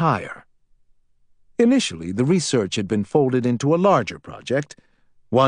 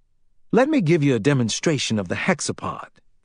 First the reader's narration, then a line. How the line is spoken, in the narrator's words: Fielding said